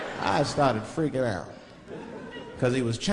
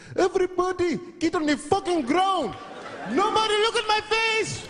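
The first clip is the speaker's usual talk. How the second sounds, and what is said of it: Put-on Chinese accent. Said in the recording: “Chinese. ... why is he talking like that? ... His accents are so good, dude. ... That's why I love his accent.”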